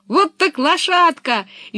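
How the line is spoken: Cheerful shout. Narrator (Russian): весело закричала Пеппи

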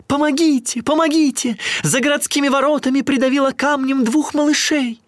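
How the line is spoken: Woman shouting. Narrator (Russian): какая-то женщина закричала

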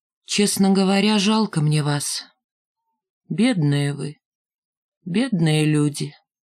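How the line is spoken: Serious, sad. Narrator (Russian): серьезно и грустно сказала

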